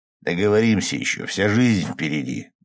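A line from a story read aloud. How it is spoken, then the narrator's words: Rough interruption. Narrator (Russian): грубо оборвал ее Рома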